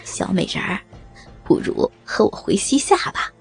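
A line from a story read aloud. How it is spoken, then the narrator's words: Hearty laughing. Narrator (Chinese): 他口中哈哈笑道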